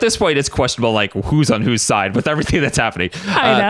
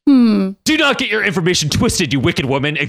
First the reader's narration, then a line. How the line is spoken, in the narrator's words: Xavier suddenly snapped